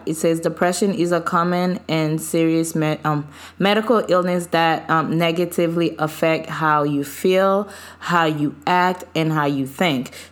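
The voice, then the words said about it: Voice not fully recovered. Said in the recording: “my voice is not fully healed yet”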